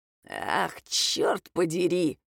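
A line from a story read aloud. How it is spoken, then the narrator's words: Grumbling. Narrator (Russian): проворчал Федор Степанович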